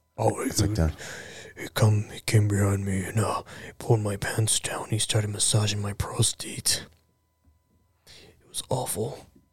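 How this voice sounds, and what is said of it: Deep disguised monster voice. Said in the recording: “he has a monster voice”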